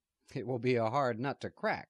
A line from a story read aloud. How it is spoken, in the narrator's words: Cuthbert said, laughing